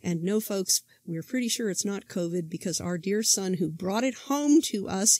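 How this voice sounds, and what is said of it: Congested voice from a head cold. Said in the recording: “As you can probably tell from my voice, I'm still suffering from this terrible head cold.”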